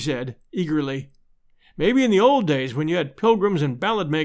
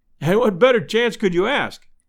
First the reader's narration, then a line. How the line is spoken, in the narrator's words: cried